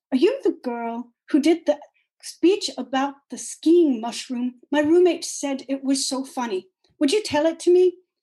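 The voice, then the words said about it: Put-on French accent. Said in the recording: “said to me in a French accent”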